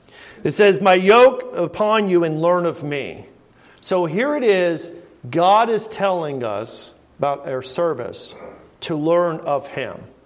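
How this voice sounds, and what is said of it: Southern American drawl. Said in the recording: “It's my southern drawl without living in the South.”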